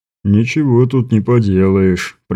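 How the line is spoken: Sudden deep bass. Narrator (Russian): пробасил вдруг Бибик

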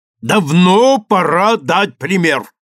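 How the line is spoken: Shouting. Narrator (Russian): выкрикнул судья

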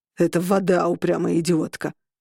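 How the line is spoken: Growling. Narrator (Russian): прорычал он

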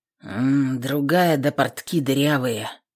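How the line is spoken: Snort into beard. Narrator (Russian): хмыкнул в бороду Иван Ямской

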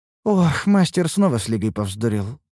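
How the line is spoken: Sighing. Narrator (Russian): вздохнула Лейна

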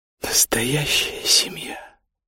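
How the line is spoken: Quiet. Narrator (Russian): тихо сказала она

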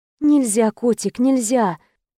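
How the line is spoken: Tender words. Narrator (Russian): ласково сказала я ей

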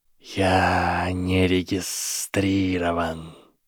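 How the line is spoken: Snake hissing. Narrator (Russian): прошипела змея

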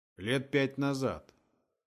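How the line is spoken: Gloomy. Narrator (Russian): мрачно ответил Том

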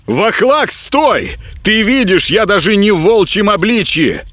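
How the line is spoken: Shout. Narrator (Russian): выкрикнул Горехвост

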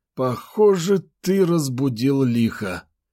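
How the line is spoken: Resigned exhale. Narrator (Russian): обреченно выдохнул Федор

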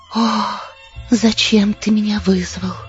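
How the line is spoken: Quiet moan. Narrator (Russian): тихо простонала она

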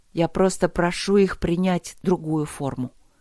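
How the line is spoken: Plain. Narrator (Russian): сказала она

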